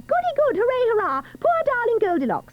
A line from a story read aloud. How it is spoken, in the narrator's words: tiny children near and far shout